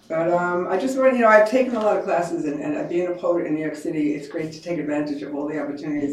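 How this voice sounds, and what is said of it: Queens New York accent. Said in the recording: “I had a Queens accent ... You have a Queens accent?”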